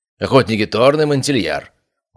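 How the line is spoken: Formal tone. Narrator (Russian): произнес официальным тоном

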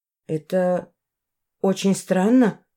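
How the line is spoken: Mumbling. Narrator (Russian): пробормотала я

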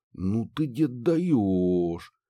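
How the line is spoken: Drawling. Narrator (Russian): протянул я

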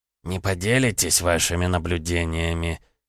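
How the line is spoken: Through gritted teeth. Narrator (Russian): сквозь зубы процедил Виктор

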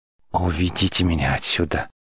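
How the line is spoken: Deathly flat plea. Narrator (Russian): мертвенным голосом попросила Мандана

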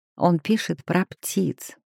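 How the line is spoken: Muttered. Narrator (Russian): пробормотала Тася

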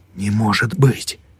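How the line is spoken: Whisper. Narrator (Russian): прошептал Хаук

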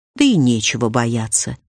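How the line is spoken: Plain. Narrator (Russian): сказал Оле

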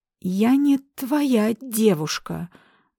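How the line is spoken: Stammering. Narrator (Russian): заикаясь, выдавила

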